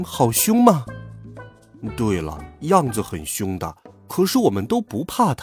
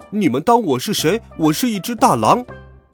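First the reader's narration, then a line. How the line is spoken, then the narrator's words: Furious yelling. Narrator (Chinese): 他气急了，就呲出白牙大叫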